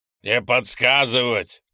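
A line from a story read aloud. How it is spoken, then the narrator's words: Sharp bark. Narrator (Russian): тут же рявкнул Гриня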